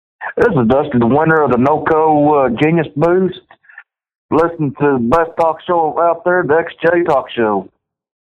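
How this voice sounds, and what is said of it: Texas accent. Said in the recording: “I love that Texas accent”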